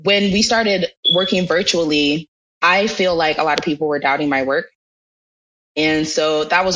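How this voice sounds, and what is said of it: Usual voice. Nothing is said of it.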